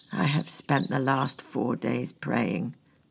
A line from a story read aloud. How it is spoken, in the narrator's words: croaked